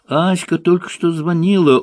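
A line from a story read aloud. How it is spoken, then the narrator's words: Faint swooning voice. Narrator (Russian): обморочным голосом закончил человек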